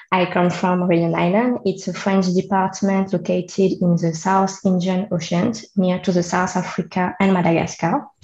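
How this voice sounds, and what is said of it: French accent in English. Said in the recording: “I'm a French, as you can hear with my accent.”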